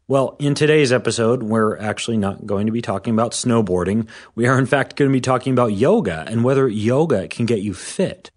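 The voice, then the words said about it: Slightly hoarse voice. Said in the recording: “my voice sounds just a little bit different in today's episode ... my voice is a little hoarse from breathing all that cold air”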